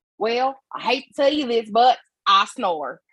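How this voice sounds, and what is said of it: Thick country bumpkin accent. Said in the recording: “he's like a country bumpkin. So, mm-hmm. You know, the accent is really, really thick.”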